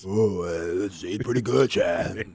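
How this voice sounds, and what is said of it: Deep bass voice imitation. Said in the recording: “how's that bass voice ... my really bad impersonation of Anthony Richardson ... I hope your voice sounds better than that”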